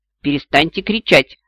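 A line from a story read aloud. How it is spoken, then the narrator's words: Sharp, cutting. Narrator (Russian): резко оборвала я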